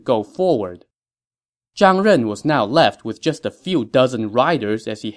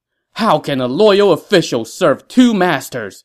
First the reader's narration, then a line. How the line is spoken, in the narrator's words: He shouted as he glared at Liu Bei